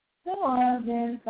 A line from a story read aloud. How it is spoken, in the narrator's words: sighed Mrs